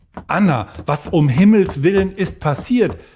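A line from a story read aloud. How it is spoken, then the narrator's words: Calling out to someone approaching. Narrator (German): rief Magdalena ihr entgegen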